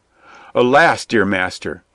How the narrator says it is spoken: cried Little John in great distress

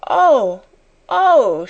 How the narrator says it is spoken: she cried woefully

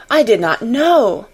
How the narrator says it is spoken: the Mem Sahib cried

